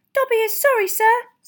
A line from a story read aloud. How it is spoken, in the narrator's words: squeaked Dobby anxiously